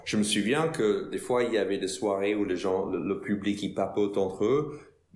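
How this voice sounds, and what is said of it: American accent in French. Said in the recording (French): “j'étais l'américain ... mon accent ... ils parlent bizarrement ... cet accent”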